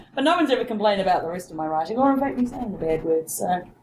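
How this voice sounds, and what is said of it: New Zealand accent. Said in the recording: “It's the accent... Rob thinks it's the accent... she's not an American... New Zealand”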